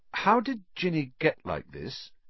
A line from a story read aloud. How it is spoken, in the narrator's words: asked slowly